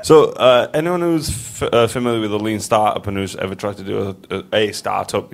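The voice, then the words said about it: Bradford English accent. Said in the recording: “Bradford, England... I noticed that accent straight away”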